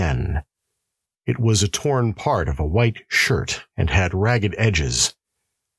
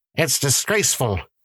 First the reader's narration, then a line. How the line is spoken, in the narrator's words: snapped